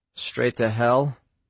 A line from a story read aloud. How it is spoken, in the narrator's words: Quinn muttered